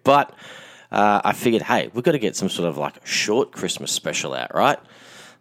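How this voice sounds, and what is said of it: Hoarse, worn-out voice. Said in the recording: “my voice is completely shot from so much talking and selling over this Christmas period”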